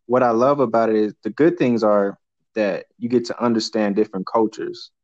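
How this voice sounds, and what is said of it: Maoli-sounding accent. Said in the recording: “as you can hear in my voice, I have a Maoli sounding voice”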